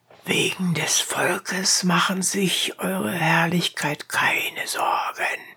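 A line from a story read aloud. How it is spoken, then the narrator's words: Whispering. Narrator (German): flüsterte ihm der Ratsherr zu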